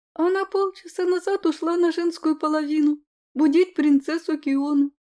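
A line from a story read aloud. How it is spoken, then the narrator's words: Flustered, blushing babble. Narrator (Russian): пролепетала приспешница, невольно наливаясь румянцем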